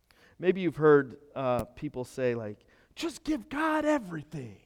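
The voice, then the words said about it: Southern preacher voice. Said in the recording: “some different preacher voice right there, right? Like, I'll try to keep the southern accent out of it.”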